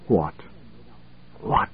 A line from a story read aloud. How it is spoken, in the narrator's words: A feeble whisper at best